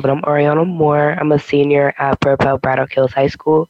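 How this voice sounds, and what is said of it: Rough, strained voice. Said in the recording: “My voice is a little messed up right now”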